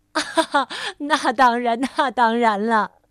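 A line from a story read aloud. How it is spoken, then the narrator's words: Hearty laughing. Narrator (Chinese): 快乐先生哈哈大笑说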